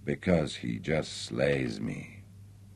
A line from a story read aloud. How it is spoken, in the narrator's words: she sighed